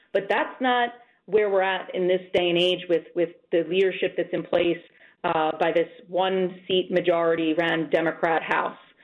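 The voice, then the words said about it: Audibly frustrated voice. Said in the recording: “as you can hear in my voice, just quite a bit frustrated at the moment”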